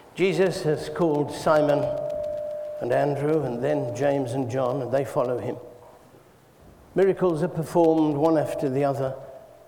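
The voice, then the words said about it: English Midlands accent. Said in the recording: “I know I've got this strange Midland accent that nobody can understand”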